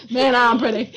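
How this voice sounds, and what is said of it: Cartoon Johnny Bravo character voice. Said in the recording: “I got all Johnny Bravo on it there.”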